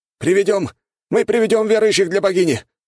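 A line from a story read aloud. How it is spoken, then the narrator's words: Shouted out. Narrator (Russian): выкрикнул один из них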